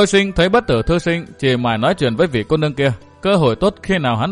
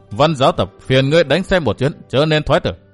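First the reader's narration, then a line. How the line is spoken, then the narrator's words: Faint sneering smile. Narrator (Vietnamese): Nam Cung Duy Đạo cười nhạt nói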